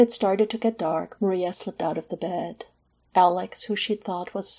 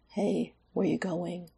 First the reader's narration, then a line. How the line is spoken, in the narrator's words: he mumbled